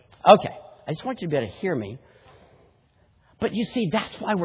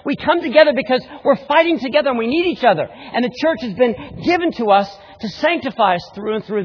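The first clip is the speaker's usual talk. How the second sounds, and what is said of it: Very fast excited speech. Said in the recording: “I'm talking so fast. ... Slow down.”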